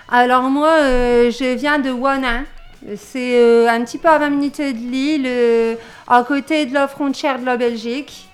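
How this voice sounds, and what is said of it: Regional French accent. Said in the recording (French): “cette voix et cet accent, c'est un mélange de quel endroit”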